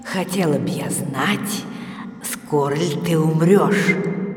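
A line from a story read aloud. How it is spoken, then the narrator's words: Spiteful whisper. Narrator (Russian): злобно прошептала засуха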